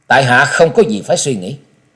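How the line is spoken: Cold reply. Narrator (Vietnamese): Trần Lâm giọng lạnh lùng trả lời

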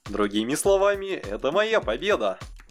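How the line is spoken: Cheerful laugh. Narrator (Russian): Юки весело рассмеялся

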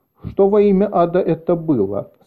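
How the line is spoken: Plain. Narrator (Russian): спросил кто-то

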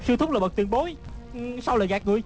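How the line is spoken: Shocked angry shout. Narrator (Vietnamese): Hư Trúc vừa kinh hãi vừa tức giận la lên

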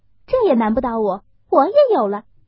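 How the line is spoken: Laughing. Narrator (Chinese): 湘云笑道

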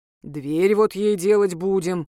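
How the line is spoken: Grumbling. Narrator (Russian): буркнул Юрец

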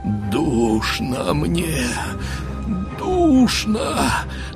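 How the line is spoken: Wild inhuman moan. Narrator (Russian): Простонал он диким, нечеловечьим голосом

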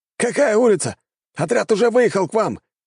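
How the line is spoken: Shouting into microphone. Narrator (Russian): кричал один из операторов в микрофон

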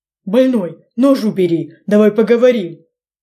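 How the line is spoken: Babbling. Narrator (Russian): Лепетал болван

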